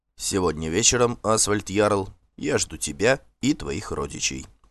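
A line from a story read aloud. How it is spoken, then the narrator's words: Calm statement. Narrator (Russian): спокойно сказал Торбранд Конунг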